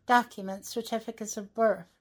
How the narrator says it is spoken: exclaimed enemies of Rosane

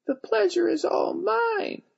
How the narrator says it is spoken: I squeaked

